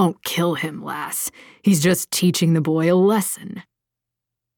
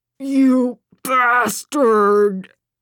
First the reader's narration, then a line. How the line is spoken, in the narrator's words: Baird groaned